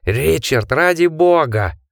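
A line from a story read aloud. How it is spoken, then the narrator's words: Roared. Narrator (Russian): взревел Джек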